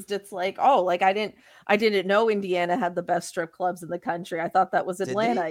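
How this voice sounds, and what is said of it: Sarcastic, mock-shocked tone. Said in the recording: “I'm being sarcastic. ... I'm absolutely being sarcastic. ... I really said it with like the kind of shock, like I missed out.”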